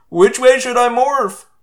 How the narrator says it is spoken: Cassie wailed

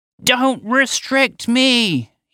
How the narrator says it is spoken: shouted

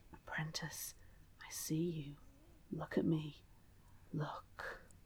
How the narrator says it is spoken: Elizabeth hears it whisper

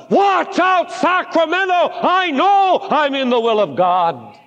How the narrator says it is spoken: I almost felt like shouting

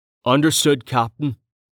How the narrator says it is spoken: Tawny said

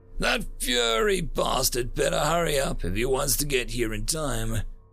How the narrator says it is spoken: bitterly mused

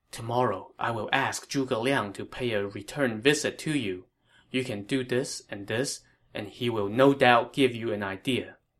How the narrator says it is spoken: Liu Bei whispered in his ear

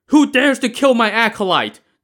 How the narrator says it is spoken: the priest now shouted

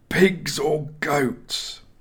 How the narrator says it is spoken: Joshua asked through gritted teeth

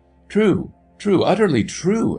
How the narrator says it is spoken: exclaimed the little man, nervously

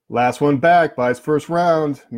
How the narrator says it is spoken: Manny shouted

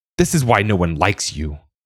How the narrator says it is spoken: Yellow Eyes screeched

